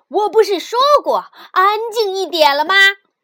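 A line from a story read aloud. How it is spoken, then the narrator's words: Loud, stern. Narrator (Chinese): 老师就会大声地说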